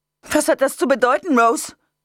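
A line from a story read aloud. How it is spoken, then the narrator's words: Piercingly shrill voice. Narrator (German): Debbies Stimme war schriller als die Sirene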